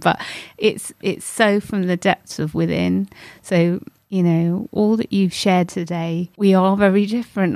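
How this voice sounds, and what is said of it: Emotionally moved, choked-up voice. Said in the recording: “people will hear in my voice, I'm so moved”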